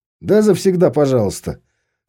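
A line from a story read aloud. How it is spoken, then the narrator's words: Amused snort. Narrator (Russian): хмыкнул тот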